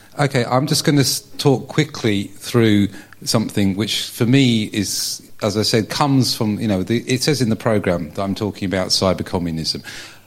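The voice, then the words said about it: Strong non-native accent in English. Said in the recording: “my horrible accent”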